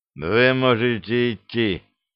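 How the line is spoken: Hollow muffled voice. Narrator (Russian): глухим голосом произнес комиссар

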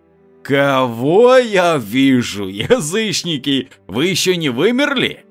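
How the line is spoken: Predatory roar. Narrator (Russian): Демон хищно проревел

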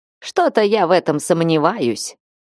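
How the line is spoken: Man's snort. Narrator (Russian): Мужчина хмыкнул

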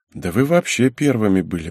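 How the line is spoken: Muttered. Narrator (Russian): пробормотал я

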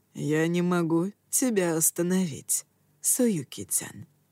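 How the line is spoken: Soft. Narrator (Russian): тихо произнес он

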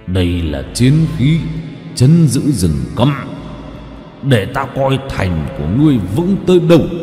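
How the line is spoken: Growl. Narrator (Vietnamese): Hắn gầm gừ

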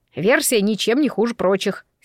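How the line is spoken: Angry. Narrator (Russian): сердито сказал он

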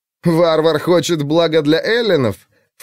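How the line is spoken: Snorted. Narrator (Russian): фыркнул Алкивиад

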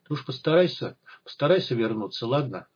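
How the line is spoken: Sad, tearful. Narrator (Russian): грустно улыбнулась ему сквозь слезы

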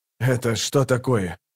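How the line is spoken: Grumbling. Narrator (Russian): проворчал Кол

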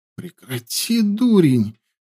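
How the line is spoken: Young woman muttering. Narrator (Russian): пробормотала девушка

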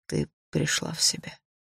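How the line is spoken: Said quietly. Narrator (Russian): тихо сказал он

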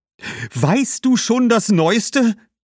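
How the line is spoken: Calling out. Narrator (German): rief Cassia

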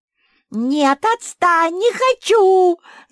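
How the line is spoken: Screamed. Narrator (Russian): закричала Куки

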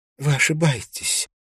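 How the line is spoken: Smiling through tears. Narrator (Russian): сказала Силья, улыбаясь сквозь слезы

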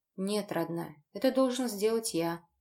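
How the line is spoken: Tender smiling. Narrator (Russian): ласково улыбнулся Женя

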